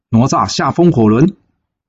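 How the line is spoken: Shouting three times. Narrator (Chinese): 哪吒连喊三声

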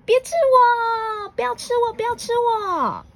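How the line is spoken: Terrified scream, small mole. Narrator (Chinese): 小鼹鼠吓了一大跳 尖叫说

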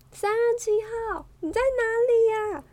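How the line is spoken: Loud shout. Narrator (Chinese): 大声的喊着

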